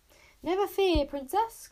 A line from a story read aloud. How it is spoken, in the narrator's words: cried Bodkin, shaking so much with anxiety